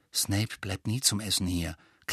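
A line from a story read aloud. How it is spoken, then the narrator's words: Quiet explaining voice. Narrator (German): klärte Ron Harry mit leiser Stimme auf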